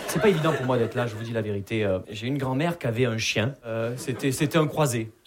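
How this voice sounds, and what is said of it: Southern French accent from Perpignan. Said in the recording (French): “Vous l'entendez à mon accent, je viens pas de Paris. Je viens de Perpignan.”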